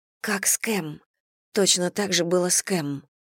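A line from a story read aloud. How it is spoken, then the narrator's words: Whisper. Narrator (Russian): прошептала Элли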